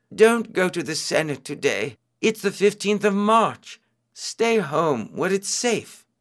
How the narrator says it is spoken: his wife pleaded with him

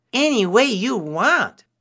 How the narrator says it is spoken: Anansi cried

